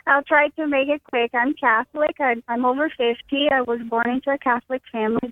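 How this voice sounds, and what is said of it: Brazilian accent. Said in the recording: “my accent. I'm from Brazil ... It's a beautiful accent.”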